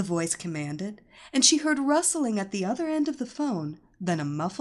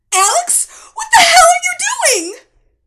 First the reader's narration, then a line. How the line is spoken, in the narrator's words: Cindy screamed into the phone, nearly hysterical